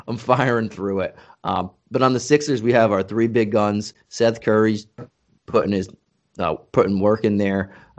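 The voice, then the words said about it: Strained, worn-out hoarse voice. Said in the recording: “my voice is pretty much shot today”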